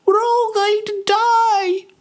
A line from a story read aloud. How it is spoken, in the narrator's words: screamed a woman